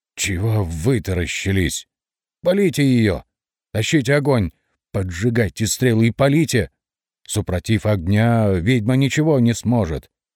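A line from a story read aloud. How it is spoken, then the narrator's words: Hoarse shout. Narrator (Russian): хрипато выкрикнул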